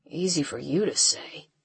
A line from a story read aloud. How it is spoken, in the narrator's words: he mumbles